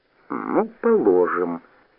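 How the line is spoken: Drawled. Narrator (Russian): протянула Галя

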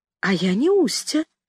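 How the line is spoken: Timid objection. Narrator (Russian): робко возразила я

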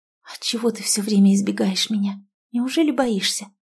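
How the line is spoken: Passionate whisper. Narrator (Russian): Оленька страстно прошептав у его губ

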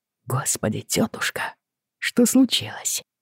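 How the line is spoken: Quiet, discreet. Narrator (Russian): Он говорил тихо, чтобы не привлекать внимания

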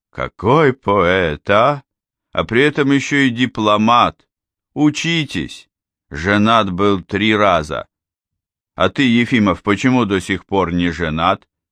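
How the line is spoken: Tearful voice. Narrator (Russian): со слезой в голосе сказал

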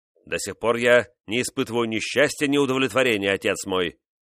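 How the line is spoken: Irritated king objecting. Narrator (Russian): раздраженно возразил король

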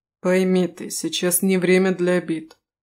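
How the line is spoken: Weary tone. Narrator (Russian): усталым тоном проговорил Рис

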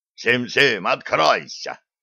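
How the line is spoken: Convict barking. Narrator (Russian): рявкнул зэка

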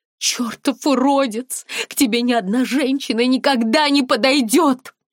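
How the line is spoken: Screamed. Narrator (Russian): закричала она

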